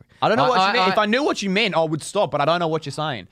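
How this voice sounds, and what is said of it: Put-on accent. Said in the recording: “can you stop the accent now?”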